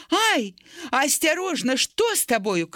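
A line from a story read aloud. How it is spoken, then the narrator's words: Mother shouting. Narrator (Belarusian): крыкнула маці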